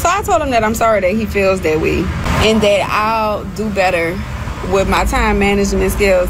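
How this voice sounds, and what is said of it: New Orleans accent. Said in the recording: “that New Orleans accent”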